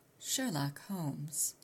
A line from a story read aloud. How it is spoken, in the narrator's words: I said softly